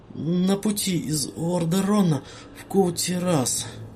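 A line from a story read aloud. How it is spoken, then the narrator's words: Uncertain, forced out. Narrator (Russian): выдавил Кадгар, неуверенный в том, позабавят или рассердят эти слова его потенциального наставника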